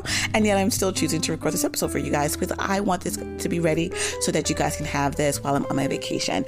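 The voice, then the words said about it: Strained, worn-out voice. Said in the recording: “as you can tell by my voice, I am not coming at you with my finest voice... screaming my lungs out. So I don't have the best vocal cords right now.”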